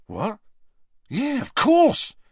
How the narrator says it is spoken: said Dean excitedly

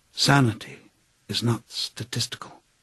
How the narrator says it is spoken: murmuring

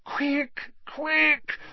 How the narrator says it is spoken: Hermione moaned

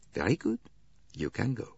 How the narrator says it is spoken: He ... said quietly

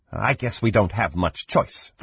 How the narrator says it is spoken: Fanrar snapped

